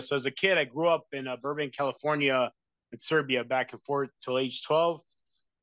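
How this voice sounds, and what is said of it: Mixed Midwest, East Coast, non-American accent. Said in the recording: “your accent because it sounds a little Midwest and a little East Coast, but then I can also hear that it doesn't sound American either”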